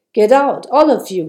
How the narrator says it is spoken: he said sternly

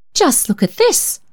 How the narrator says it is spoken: exclaimed Aunt Charlotte

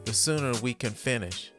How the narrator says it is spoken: Nicole sarcastically says

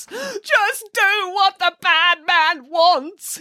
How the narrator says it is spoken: he pleaded in between racking sobs

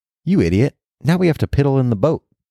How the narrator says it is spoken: the other brother exclaimed

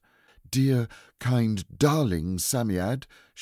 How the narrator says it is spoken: said breathlessly

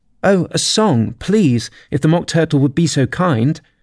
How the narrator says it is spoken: Alice replied, so eagerly

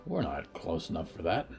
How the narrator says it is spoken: Walt muttered

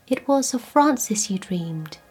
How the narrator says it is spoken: she said quietly

